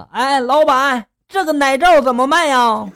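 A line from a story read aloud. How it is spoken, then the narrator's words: Loud question. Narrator (Chinese): 闺蜜大声的就询问了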